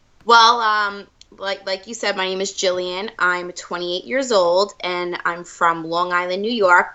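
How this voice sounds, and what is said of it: New York accent. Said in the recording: “I wouldn't have been able to tell that you were from New York at all from your accent ... I get that a lot out here. I definitely stick out”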